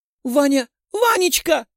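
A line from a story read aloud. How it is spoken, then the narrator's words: Young woman's shout. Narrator (Russian): закричала девушка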